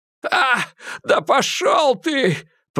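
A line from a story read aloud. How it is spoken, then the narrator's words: Groan. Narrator (Russian): простонал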